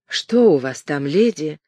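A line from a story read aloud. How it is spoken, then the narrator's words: Very soft. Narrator (Russian): очень мягко проговорила Кэтрин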